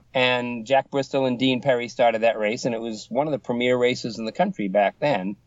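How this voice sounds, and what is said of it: Boston accent. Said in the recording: “he was listening to my Boston accent ... thought you were from here in Mass. I said, no, just my accent.”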